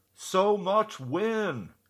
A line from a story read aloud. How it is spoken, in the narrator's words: Someone in the back of the room even shouted out